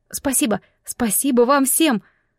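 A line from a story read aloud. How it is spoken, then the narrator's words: Overly bright joyful blurt. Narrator (Russian): Как-то чересчур звонко и радостно выпалила я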